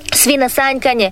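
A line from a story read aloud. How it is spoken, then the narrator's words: Cheerful exclamation. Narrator (Croatian): uzvikivala je Ivanka veselo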